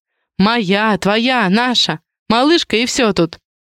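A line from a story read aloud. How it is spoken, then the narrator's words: Soft laughter. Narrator (Russian): негромко рассмеялась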